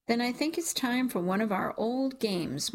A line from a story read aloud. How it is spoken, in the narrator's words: my sister said